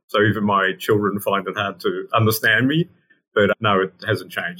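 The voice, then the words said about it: Australian accent. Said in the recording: “It's Australian. ... It's 100% Australian.”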